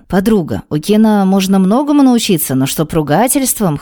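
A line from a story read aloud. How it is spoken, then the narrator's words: Chuckling. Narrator (Russian): хохотнул Рэй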